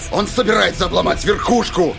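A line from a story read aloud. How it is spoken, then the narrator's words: Barked reply. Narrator (Russian): рявкнул в ответ стрелок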